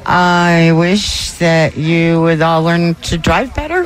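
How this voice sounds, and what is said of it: Man imitating a woman's voice. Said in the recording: “Is this just somebody impersonating a woman ... That was a man doing his best woman impression.”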